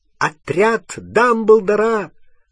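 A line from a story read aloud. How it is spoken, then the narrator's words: Shouting out. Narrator (Russian): выкрикнул он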